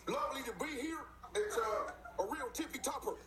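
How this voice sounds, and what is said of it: Put-on British accent. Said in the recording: “Are you trying to do a British accent?”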